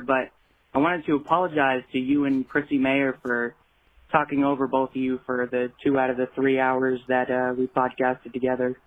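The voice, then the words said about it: Sick, under-the-weather voice. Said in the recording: “Sorry about my voice. I'm a little bit under the weather”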